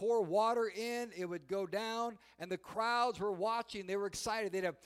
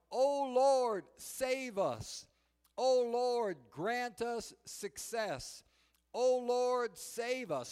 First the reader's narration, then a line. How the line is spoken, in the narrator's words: the priest would shout out loud